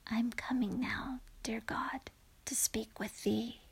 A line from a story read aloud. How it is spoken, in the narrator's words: He whispered low